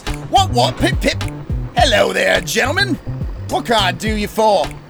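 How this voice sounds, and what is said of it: Put-on, not very good accent. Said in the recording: “his accent is not that great, and he might be faking it”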